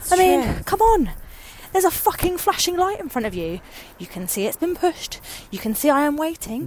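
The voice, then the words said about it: Out of breath, panting. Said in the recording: “I'm a little bit out of breath... it sounds like you're running a marathon.”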